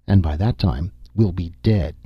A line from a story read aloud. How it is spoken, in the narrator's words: Nasha said bitterly